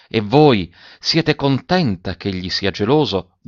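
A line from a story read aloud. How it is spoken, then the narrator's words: Quiet question. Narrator (Italian): domandò Gemmati sottovoce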